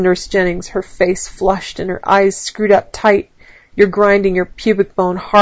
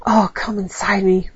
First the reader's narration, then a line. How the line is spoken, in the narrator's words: whispers Nurse Jennings hoarsely